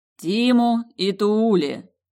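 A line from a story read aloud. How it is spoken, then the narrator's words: Amused snort. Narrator (Russian): хмыкнуло сердце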